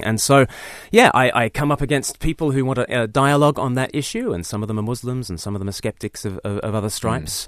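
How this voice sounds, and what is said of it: Mixed Australian-British accent. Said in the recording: “Your accent gives you away that you're not necessarily from around these here parts originally ... I'm a bit half and half ... I sound like a pom to all the Australians. I sound like a convict to the English.”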